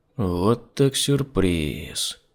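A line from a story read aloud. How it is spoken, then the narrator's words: Drawling. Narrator (Russian): протянул Костя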